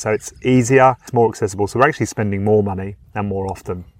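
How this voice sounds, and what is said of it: British accent. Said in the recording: “being from the UK, as you can probably tell by my accent.”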